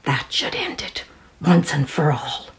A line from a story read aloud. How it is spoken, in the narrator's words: with a giddy, insane smile curling his lips, I could swear I heard him whisper